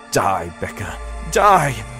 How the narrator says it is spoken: I cried, struggling with the handle of the knife

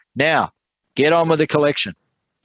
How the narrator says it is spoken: A man sitting on the second row shouted

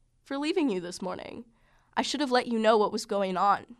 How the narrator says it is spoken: he said

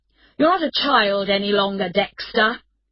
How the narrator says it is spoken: his father replied angrily

